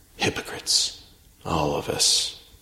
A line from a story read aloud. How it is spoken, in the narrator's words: Reynolds sighed, whispered to himself